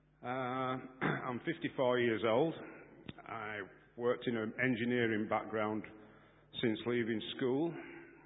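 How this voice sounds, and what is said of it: Non-London accent. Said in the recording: “As you'll guess from my accent, I'm not from London.”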